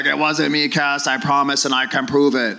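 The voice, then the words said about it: Imitates another person's accent. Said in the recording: “He cannot do a Burroughs conversation without the accent. Like, he just has to do it with the accent. ... impersonate somebody's accent”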